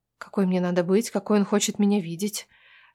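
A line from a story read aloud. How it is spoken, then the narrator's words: Whispered question. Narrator (Russian): шепотом спрашиваю я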